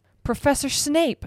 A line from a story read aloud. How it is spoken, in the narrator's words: shrieked Madame Pomfrey